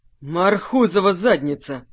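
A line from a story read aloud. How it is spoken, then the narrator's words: Emotional exhale. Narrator (Russian): выдохнул Олег, не сдержав эмоций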